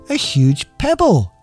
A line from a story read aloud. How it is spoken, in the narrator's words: she shouted triumphantly